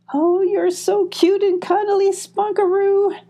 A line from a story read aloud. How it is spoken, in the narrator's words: squealed Molly